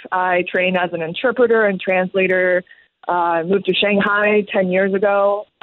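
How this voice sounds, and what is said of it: American-sounding English accent. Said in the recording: “I have this very deceivingly American accent”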